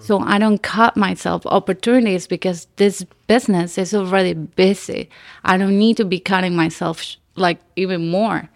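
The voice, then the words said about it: Unique, nice-sounding accent. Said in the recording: “I love your accent ... the first thing I noticed was her accent ... You do have a nice accent ... where's this accent from? Like, I've never heard of it ... she's not like Russian ... it's very unique”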